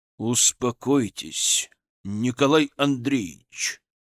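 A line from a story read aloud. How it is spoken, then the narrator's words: Icy tone. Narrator (Russian): Ледяным тоном посоветовал ему Зотов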